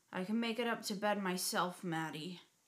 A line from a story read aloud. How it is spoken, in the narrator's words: slurred, her face turned away from me